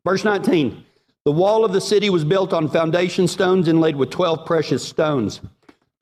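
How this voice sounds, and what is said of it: Texas accent. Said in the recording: “My Texas accent might not read well from Revelation”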